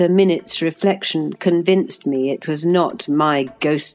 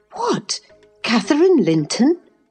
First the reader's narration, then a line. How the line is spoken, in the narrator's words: I exclaimed, astonished